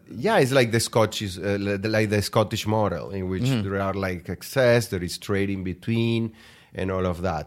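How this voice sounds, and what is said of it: Foreign accent. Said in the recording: “I was the guy with the weird accent walking around Kentucky”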